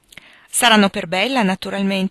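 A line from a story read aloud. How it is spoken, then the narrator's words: Exclamation. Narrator (Italian): esclamò Annie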